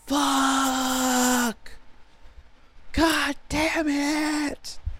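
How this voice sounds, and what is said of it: Low-pitched screaming. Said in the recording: “I would just scream really in a low voice”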